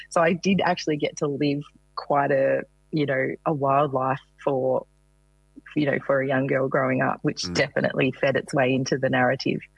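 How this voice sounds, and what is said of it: Rural Australian country accent. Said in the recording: “I'm a country girl, as you can probably tell from my accent.”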